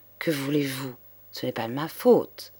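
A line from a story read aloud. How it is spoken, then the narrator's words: Triumphant murmur. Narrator (French): Madame Loiseau eut un rire muet de triomphe et murmura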